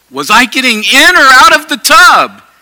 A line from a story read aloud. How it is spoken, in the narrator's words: yelled